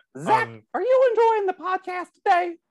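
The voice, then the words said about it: Mickey Mouse voice, a bit country. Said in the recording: “do the voice ... At the end, it got a little country. It was like country Mickey.”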